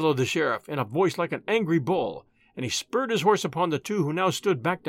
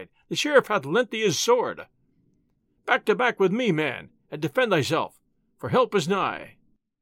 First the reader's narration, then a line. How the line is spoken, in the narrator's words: he cried